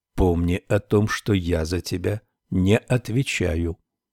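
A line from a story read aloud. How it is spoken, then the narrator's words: Whisper. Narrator (Russian): Гарри прошептал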